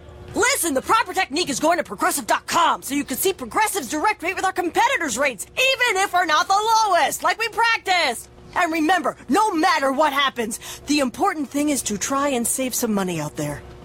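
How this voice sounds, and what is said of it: Coach-style pep talk voice. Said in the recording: “my impression of a coach giving the ultimate pep talk”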